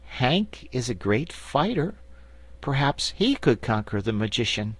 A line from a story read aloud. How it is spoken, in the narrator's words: Betsy said in a hesitating voice